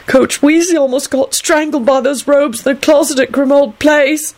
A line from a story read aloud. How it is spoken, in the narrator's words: Clive wailed stubbornly from beneath his covers